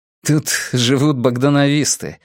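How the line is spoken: Laughing explanation. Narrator (Russian): объяснил ему Нергал, засмеявшись над выражением его лица

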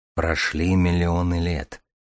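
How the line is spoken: Quiet, soft. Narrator (Russian): проговорил тихонько Дар

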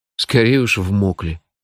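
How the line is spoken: Grumbled mutter. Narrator (Russian): буркнул я

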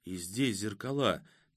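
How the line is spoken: Quiet. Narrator (Russian): тихо проговорила Катя

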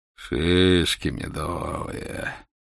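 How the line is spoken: Purring. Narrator (Russian): промурлыкал капитан-поручик

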